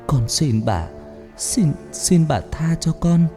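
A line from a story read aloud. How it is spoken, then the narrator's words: Frightened weak trembling. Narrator (Vietnamese): Cô sợ hãi nói giọng yếu ớt run rẩy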